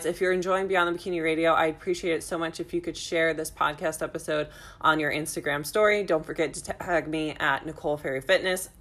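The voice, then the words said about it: Very fast speech. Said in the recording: “Whoa, I'm talking so fast.”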